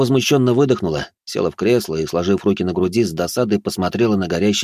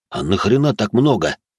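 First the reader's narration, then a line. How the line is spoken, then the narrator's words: Stunned exhale. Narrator (Russian): Володя потрясенно выдохнул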